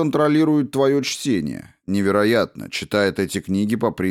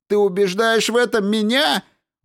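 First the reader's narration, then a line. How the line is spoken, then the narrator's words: Exclamation. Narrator (Russian): воскликнул Кэрри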